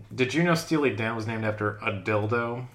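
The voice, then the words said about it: Smug party guy voice. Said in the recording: “my impression of Smug Guy at a Party”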